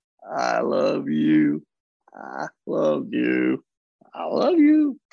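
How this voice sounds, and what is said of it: Southern accent. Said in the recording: “you say them in a Southern accent”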